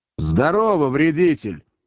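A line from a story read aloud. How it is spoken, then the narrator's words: Loud, spiteful. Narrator (Russian): злобно и громко ответил Иван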